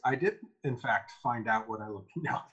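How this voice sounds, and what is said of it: Mock narrator voice. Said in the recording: “narrator voice.”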